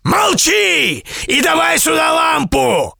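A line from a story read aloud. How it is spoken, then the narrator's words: Yelling man. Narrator (Russian): заорал колдун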